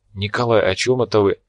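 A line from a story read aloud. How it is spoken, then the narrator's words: Quiet question. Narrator (Russian): тихо спросила девушка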